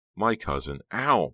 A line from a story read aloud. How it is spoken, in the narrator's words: Becca cried